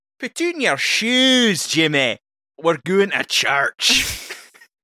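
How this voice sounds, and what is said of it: Put-on Scottish accent. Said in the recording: “I need to prep the accent for this one... Another deeply offensive accent... So that's a Scottish man.”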